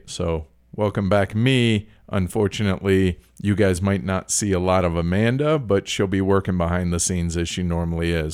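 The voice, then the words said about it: Deeper, congested voice. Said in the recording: “I'm still got a bit of a runny nose and, and whatever. And my voice is still a little bit deeper than it normally is.”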